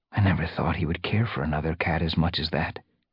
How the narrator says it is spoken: murmured

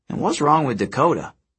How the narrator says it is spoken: Frank sighed

